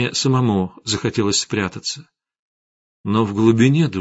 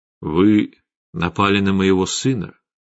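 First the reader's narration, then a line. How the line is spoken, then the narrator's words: Sad. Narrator (Russian): печально сказал Гессер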